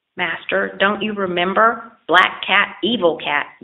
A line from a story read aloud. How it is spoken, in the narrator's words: yelped the dog even more angrily